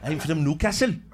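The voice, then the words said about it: Imitated Newcastle accent. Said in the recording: “he'll have like a Newcastle accent ... Close enough.”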